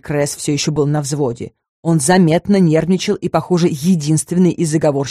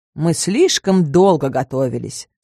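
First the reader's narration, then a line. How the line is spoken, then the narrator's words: Calm reply. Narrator (Russian): спокойно отозвался третий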